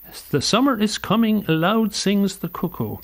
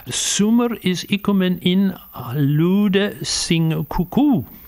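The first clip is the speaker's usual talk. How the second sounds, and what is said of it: Attempted Old English pronunciation. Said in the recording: “my old English accent is terrible”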